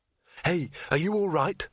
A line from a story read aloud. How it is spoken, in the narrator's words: said Rincewind urgently